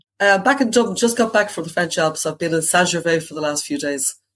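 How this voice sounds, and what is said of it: Irish accent, slightly congested voice. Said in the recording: “her beautiful Irish lilt ... My dulcet Irish tones are slightly soaked in the flu today”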